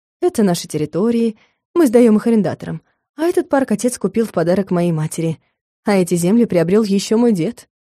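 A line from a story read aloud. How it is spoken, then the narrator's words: Matter-of-fact explanation. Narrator (Russian): Иринмар будничным голосом пояснял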